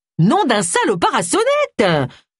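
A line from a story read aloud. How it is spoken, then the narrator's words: Screamed. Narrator (French): hurla Agatha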